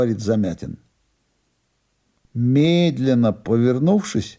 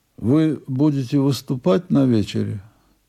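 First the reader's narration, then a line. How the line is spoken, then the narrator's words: Slightly muffled question. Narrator (Russian): Немного глухим голосом Блок спрашивает меня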